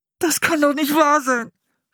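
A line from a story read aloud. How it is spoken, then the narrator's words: Groaning. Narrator (German): stöhnte er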